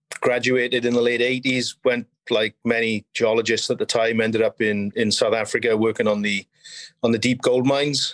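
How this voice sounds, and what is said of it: Welsh accent. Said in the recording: “I think you could probably tell from my accent that I'm not from Canada. From Wales originally.”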